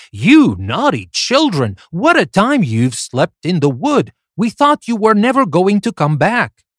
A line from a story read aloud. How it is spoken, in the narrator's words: the woman exclaimed